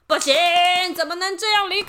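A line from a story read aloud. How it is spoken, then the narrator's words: Monsters shouting. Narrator (Chinese): 怪兽们大叫了起来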